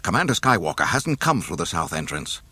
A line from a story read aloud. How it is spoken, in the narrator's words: the man said frantically